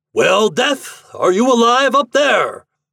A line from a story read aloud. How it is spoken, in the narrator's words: the soldier shouted against the wind